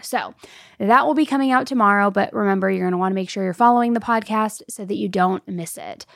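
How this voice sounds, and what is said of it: Slightly hoarse voice. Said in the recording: “my voice is getting hoarse”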